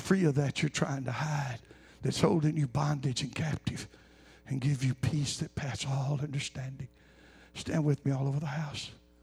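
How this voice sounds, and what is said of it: Raspy voice. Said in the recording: “I apologize for the raspy voice”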